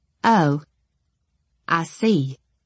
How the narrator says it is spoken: I replied stiffly

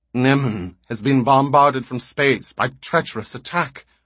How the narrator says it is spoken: Oval said baldly, harshly

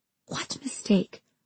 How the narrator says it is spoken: I asked, my voice barely above a whisper

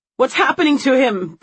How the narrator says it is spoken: Brittany cries

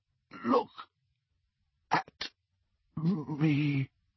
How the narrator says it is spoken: he whispered

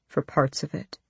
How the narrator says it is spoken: he said, his voice low

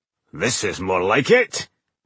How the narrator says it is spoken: Boindil said cheerfully

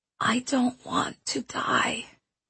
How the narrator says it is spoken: he whispered into the stillness

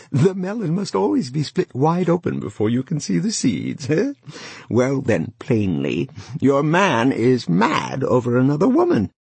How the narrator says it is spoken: she laughed and said again

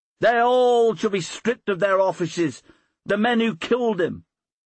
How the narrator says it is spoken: cried another

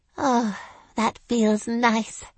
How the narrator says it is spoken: I sighed

